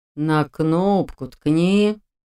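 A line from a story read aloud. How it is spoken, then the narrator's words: Weary drawl of old man. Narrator (Russian): тоном утомленного жизнью и собственной мудростью старца протянул он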